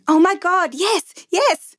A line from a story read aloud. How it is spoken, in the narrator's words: Everyone shouting